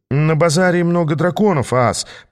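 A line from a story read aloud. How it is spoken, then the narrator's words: Mumbled. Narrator (Russian): промямлил я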